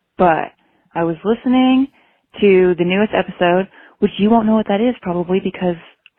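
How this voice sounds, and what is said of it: Polite customer service voice. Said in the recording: “doing my customer service voice”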